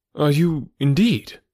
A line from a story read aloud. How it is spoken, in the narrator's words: cried looking eagerly